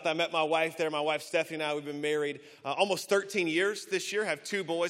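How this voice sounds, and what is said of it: Slow Southern US accent. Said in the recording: “You may hear the accent a little bit, a little slower in the South.”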